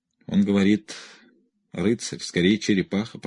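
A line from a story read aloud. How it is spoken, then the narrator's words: Quiet muttering. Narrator (Russian): пробормотал тихо Боек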